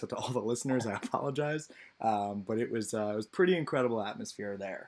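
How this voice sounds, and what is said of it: Hoarse, worn-out voice. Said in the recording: “my voice is still pretty shot”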